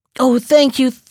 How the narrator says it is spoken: cried the jackal

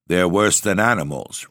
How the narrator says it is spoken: replied Monsieur Sauvage

